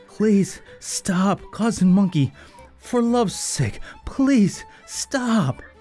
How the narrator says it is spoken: Wolf was the first to cry out in pleading tones breathlessly

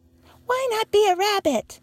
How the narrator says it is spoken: called out all the rabbits

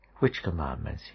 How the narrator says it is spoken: he asked

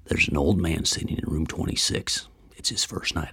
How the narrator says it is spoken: whispered

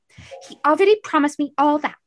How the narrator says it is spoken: Sydney snapped, anger coming to the forefront

